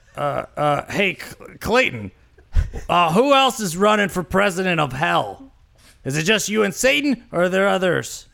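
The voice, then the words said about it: Imitates another person's voice. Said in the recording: “Do it in Stan Lee. Do your best Stan Lee impression.”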